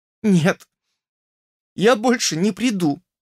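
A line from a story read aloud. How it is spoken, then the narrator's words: Trembling voice. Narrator (Russian): ответила она дрожащим голосом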